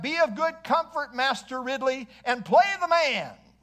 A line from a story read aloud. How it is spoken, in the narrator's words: Latimer cried out